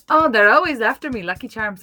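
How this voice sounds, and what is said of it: Put-on Irish accent. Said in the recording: “Do your Irish accent ... Oh, that was bad ... Still not great ... You're good at it, though.”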